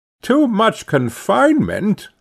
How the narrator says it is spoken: cried

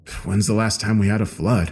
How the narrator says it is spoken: I muttered

